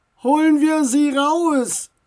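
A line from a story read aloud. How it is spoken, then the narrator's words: Called out. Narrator (German): rief einer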